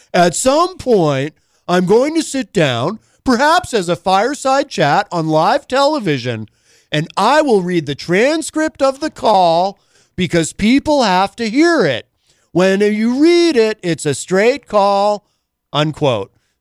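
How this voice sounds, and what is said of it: Poorly imitates another person's voice. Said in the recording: “my Trump impression is terrible”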